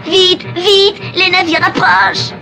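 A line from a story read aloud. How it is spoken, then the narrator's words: Minister's trembling shout. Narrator (French): crie le ministre en tremblant de la tête aux pieds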